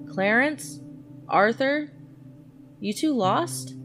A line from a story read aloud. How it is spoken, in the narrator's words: she regularly called out